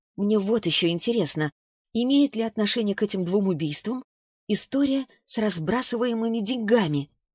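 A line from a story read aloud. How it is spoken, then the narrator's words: Sighing. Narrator (Russian): Саша снова вздохнула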